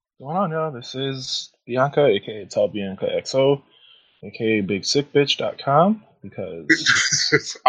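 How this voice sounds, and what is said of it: Sick voice, like NPR radio host. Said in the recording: “I don't feel my best, which is why I sound like an NPR radio host right now ... Bianca was sick last week and is still sick”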